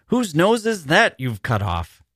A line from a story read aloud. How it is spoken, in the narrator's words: she cried furiously